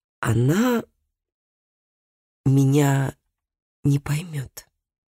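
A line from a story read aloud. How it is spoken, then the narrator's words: Slow speech. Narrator (Russian): медленно произнес Микаэль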